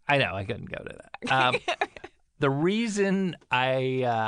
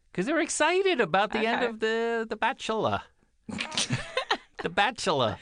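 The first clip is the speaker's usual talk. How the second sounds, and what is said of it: Made-up character accent, stretched syllables. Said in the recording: “What accent? Where is this character from? ... I'm free-forming ... I like to add the syllables ... It sounds like it's somebody with a burnt mouth from Rhode Island who maybe is a baker”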